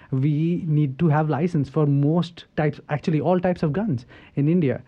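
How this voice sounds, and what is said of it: Indian English accent. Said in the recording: “I come from India. You can tell probably from my accent.”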